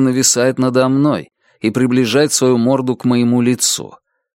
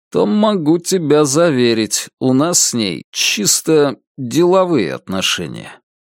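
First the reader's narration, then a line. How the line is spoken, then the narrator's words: Slow reply. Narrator (Russian): медленно отвечаю я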